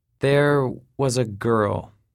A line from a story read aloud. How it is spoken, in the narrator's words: he said slowly, with measured words